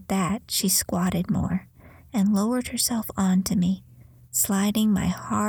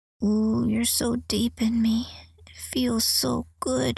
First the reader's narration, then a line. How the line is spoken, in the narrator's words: whimpered